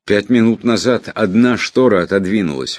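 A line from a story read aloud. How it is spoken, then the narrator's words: Needle exclaiming. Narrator (Russian): воскликнула игла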